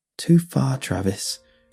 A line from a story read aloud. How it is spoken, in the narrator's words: she muttered